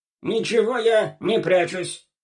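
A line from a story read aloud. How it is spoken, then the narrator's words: Hunted, forced out. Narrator (Russian): затравленно выдавил Колобок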